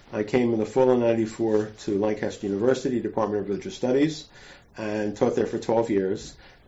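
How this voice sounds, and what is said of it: American accent. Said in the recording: “I'm American. ... I don't think my accent has changed. I think I still sound like Joan Rivers.”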